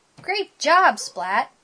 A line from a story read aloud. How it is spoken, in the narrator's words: Splat's dad said